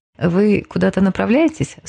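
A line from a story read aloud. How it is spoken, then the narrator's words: Calm question, young woman. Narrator (Russian): спокойно спросила светловолосая девушка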